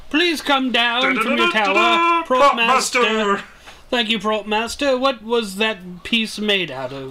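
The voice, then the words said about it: Put-on British accent. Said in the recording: “Why are you trying to sound British?”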